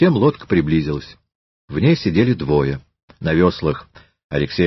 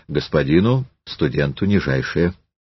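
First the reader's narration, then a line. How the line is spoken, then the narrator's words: Calm reply. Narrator (Russian): Щемилов спокойно ответил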